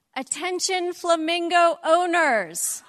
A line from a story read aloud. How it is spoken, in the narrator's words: in her loudest voice, she said